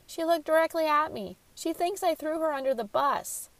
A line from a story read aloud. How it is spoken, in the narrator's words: Marty Price, the young man who Angela and Beatrice had met earlier in the day at the factory, cried